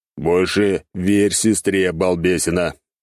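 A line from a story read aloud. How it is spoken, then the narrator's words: Grumbling. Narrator (Russian): проворчал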